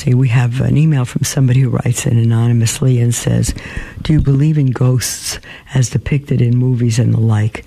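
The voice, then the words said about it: Hoarse voice. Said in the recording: “I've had a good case of the flu, so I'm still a little hoarse”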